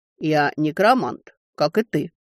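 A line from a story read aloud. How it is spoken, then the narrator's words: Calm. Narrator (Russian): спокойно ответил он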